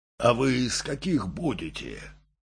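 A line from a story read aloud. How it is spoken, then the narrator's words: Deep bass woman asking. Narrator (Russian): спросила изрядным басом Домна Павловна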